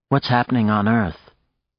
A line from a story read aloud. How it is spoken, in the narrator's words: Nadia said to him drowsily